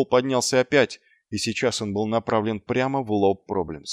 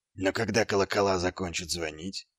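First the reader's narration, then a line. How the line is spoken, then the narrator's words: Quiet. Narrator (Russian): тихо сказал Ваймс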